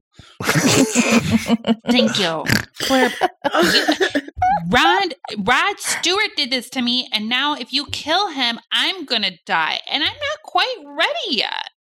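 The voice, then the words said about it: Cute childlike character voice. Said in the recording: “why are you a child?... how cute my voice is right now... It's very darling.”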